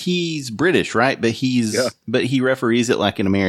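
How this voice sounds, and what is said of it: Usual voice. Nothing is said of it.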